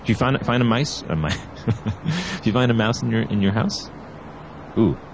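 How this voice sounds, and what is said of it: Put-on accent. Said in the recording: “How was that accent?”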